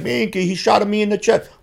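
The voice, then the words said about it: Put-on Italian accent. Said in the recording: “doing the Italian accent”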